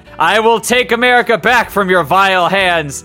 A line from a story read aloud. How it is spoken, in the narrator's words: shouted Metal Wolf's AI